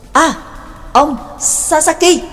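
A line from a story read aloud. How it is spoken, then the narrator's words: Sudden loud call. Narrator (Vietnamese): sực nhớ ra lớn tiếng gọi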